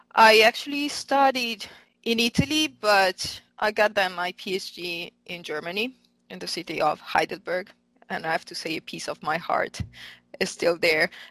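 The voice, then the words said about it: Italian accent in English. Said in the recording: “clearly from my accent, I'm not American. I'm actually Italian.”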